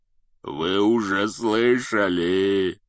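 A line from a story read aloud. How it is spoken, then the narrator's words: Growled. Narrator (Russian): прорычал Хагрид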